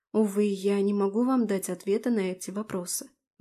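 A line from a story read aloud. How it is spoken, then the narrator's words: Sighing. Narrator (Russian): вздохнула я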